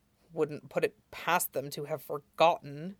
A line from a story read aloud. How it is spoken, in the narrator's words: Jiang Cheng grumbles